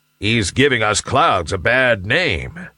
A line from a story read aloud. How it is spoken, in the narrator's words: growled a big, burly cloud